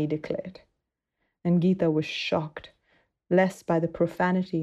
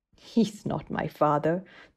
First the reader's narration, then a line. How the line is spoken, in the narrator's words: the girl replied scornfully